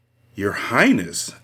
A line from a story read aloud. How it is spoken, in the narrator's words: Anne exclaimed, her face blanched